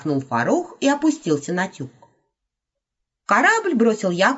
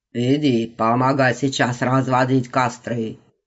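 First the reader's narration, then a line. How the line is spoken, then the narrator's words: Gruff mutter. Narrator (Russian): буркнул Симбаб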